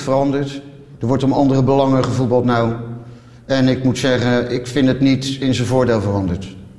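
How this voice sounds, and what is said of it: Rotterdam city accent. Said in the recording (Dutch): “dit lijkt mij een randstedelijk stadsaccent ... het is Jules, Deelder die we hoorden. Die prat ging op zijn eh, Rotterdamse accent”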